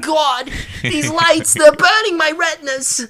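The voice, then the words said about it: Mort Goldman character impression. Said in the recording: “Mort Goldman, the orange hair guy that owns the pharmacy in the show... He's got a fun voice... That's a great impression.”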